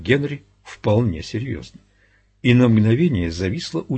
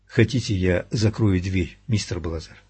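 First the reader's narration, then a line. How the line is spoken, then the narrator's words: Quiet question. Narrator (Russian): тихонько спросил Чимми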